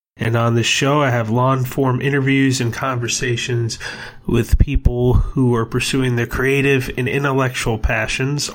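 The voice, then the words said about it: Slightly raspy voice. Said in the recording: “my voice being a little raspy”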